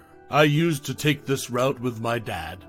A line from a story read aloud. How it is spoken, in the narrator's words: Michael replied, his voice steady